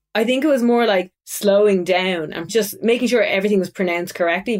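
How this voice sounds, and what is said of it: Strong regional accent, fast rising speech. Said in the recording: “my accent was too strong ... we speak really fast and we kind of go up at the end of sentences ... our tone is just very different to kind of the universal tone”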